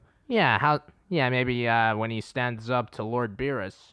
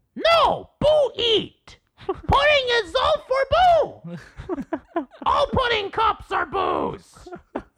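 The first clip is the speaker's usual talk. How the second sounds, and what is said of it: Imitates cartoon character Majin Buu. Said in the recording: “try doing Majin Buu ... Sounds pretty good from what I remember.”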